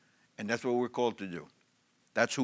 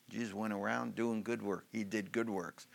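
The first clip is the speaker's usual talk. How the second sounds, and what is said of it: Put-on Southern twang. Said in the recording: “in a little southern twang there”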